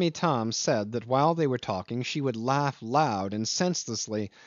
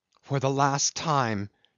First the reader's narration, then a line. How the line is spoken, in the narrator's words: she cried menacingly